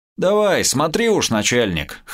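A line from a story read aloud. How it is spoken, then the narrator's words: Short laugh. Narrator (Russian): хохотнул Кастет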